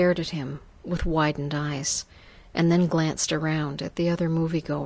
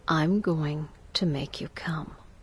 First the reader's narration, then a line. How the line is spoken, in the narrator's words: He whispered in my ear softly